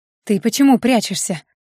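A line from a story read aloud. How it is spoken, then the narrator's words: Indignant whisper. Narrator (Russian): Шепотом возмутилась напарница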